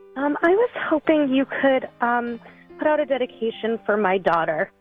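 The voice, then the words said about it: Choked up, emotional voice. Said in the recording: “You're getting all choked up”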